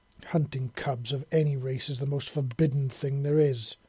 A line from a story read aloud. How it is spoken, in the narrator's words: she snarled